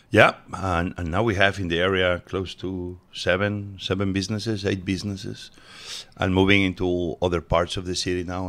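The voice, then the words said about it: Speaks English with a foreign accent. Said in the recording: “I'm a Washingtonian with an accent.”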